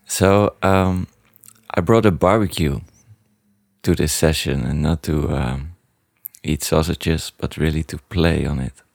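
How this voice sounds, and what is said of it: Low hoarse voice from shouting. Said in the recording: “he has a nice low Barry White voice, I've shouted too much at a soccer match yesterday ... really sexy voice”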